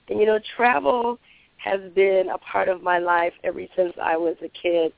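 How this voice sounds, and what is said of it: Voice strained from illness. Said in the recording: “apologize for my voice. I'm a little under the weather”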